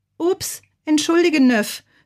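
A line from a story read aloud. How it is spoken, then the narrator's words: Called out. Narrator (German): rief Bazilla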